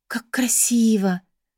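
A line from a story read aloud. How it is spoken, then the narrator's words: Admiring whisper. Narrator (Russian): восхищенно прошептала Бри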